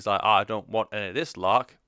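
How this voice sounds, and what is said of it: Mock Preston accent, imitating King Barrett. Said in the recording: “Preston accent”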